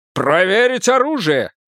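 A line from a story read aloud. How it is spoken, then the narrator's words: Shout. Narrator (Russian): крикнул Кендлис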